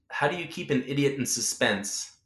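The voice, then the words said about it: Put-on British accent. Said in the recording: “in his British accent”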